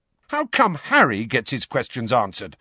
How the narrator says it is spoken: said Fred angrily

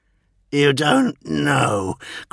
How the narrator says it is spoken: growled, his ire

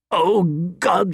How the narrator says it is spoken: he said, choking on his laughter

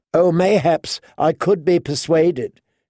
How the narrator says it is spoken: she giggled

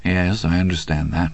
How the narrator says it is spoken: Andy said softly

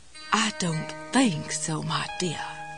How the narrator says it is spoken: Jessie whispered in her snottiest Elizabeth Taylor cat on a hot tin roof voice

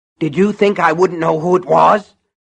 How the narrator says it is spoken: Buster Keaton was grunting as he dragged Norris

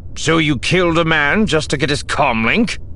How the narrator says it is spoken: Barris said harshly

